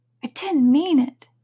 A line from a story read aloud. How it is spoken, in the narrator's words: pleaded poor Alice